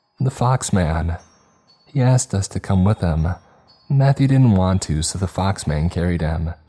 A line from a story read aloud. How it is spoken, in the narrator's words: she responds cheerfully